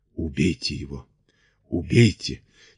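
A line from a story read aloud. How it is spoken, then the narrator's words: Quiet muttering, cracked voice. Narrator (Russian): тихо бубнила она над треснутым голосом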